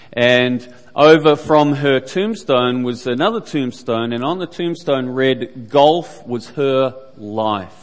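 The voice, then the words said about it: New Zealand accent. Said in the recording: “New Zealand, which is where I am from, if couldn't have guessed the accent by now”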